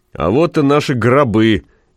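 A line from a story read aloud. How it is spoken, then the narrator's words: Cheerful and loud. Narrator (Russian): весело и громко произнес кто-то впереди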